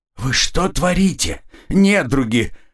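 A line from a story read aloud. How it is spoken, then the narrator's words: Hissed. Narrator (Russian): прошипел я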